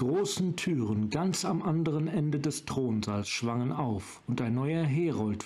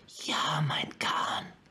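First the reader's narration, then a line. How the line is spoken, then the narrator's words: Hissed. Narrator (German): zischte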